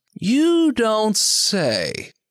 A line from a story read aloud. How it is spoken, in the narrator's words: Art drawls